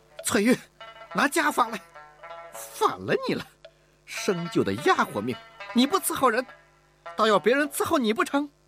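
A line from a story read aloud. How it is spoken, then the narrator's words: Exasperated shout. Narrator (Chinese): 吴雅士忍无可忍地喊道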